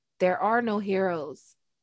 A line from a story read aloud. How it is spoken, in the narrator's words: a voice inside her whispered